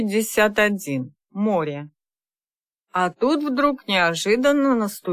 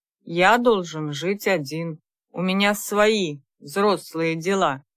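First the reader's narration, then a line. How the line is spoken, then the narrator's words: Stern, uncompromising tone. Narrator (Russian): строгим тоном, не допускающим возражений, сказал Михаил родителям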